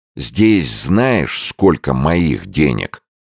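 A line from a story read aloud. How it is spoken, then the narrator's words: Angry, forced out. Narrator (Russian): зло выдавил Мальцев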